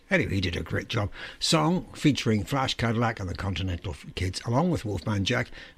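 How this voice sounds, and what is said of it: Strained, not-working voice. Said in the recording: “saving my voice. Got a cold in my throat tonight. My voice is definitely not working properly.”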